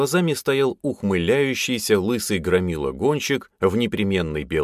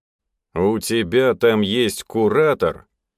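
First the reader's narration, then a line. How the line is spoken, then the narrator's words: Clinical questioning tone. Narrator (Russian): тем же стоматологическим тоном спросил он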